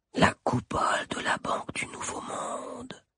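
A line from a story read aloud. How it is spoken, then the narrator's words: Murmured. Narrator (French): murmura-t-il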